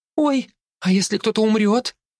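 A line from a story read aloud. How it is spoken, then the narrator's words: Squeaking girl. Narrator (Russian): пискнула девушка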